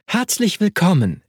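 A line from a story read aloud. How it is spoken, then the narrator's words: Warm, smiling call. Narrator (German): rief sie, und ihr Lächeln sah ehrlich und gut aus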